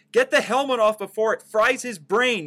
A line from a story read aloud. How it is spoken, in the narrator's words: yelled Dr